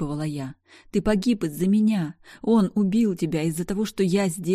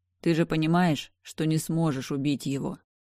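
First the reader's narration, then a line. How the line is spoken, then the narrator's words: Gentle smiling question. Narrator (Russian): спросил Дейтон, мягко улыбнувшись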